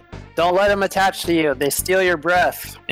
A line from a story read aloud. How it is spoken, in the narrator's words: Raylan just shouts